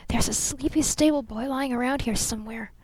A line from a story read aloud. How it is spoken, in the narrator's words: she whispered